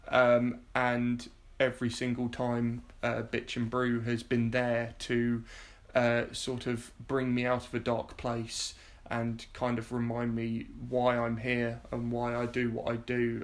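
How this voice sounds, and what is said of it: Slightly emotional, wavering voice. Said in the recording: “I'm getting a little bit emotional”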